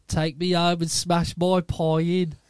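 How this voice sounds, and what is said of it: Imitated Brummy accent. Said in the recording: “It was a sort of Brummy accent.”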